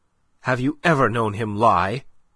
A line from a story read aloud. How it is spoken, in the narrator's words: she cut in sharply